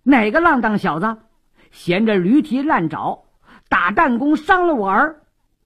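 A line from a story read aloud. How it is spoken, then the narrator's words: Angry cursing. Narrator (Chinese): 张孔目也十分恼怒，边骂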